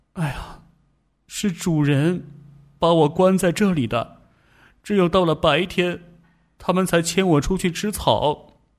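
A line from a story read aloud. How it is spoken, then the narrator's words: Sighing. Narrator (Chinese): 波克叹了口气说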